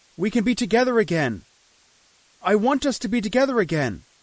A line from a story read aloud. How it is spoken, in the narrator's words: I shouted